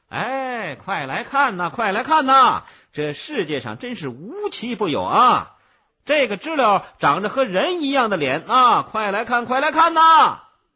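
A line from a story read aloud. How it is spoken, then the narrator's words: Vendor loudly hawking. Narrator (Chinese): 卖鸟的小贩正在大声的吆喝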